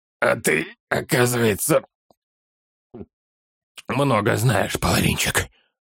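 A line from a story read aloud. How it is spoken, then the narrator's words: Hoarse, forced out. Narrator (Russian): хрипло выдавил из себя Оттон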